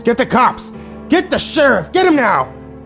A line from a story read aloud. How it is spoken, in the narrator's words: He began screaming at the top of his lungs